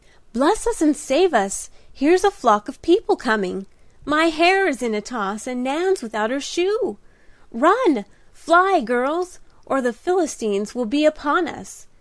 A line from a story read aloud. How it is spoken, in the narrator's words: cried Di, in sudden alarm